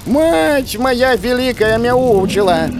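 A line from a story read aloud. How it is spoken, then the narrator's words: Yowling cat. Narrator (Russian): завопил кот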